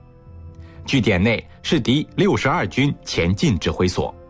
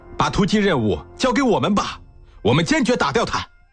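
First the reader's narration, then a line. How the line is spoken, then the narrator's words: Shouted. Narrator (Chinese): 话音未落，一连李副连长喊道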